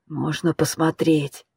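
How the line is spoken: Hoarse voice. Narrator (Russian): хриплый голос

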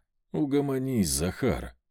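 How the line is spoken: Sighing. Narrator (Russian): Я вздохнул

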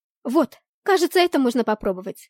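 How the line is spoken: Exclaiming. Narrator (Russian): воскликнула Блэр

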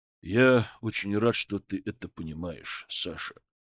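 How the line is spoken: Quiet old man. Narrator (Russian): тихо сказал дед

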